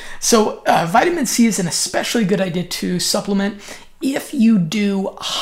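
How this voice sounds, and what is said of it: Usual voice. Nothing is said of it.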